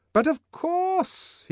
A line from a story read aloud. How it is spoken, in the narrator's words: he cried, making up for his first hesitations with an excess of noisy cordiality